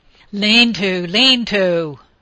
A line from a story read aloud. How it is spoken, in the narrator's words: Penn shouted